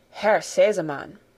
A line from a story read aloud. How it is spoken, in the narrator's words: began the lady in a solemn voice